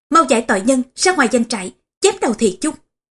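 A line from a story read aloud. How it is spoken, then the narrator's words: Thunderous shout. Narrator (Vietnamese): quát lên như sấm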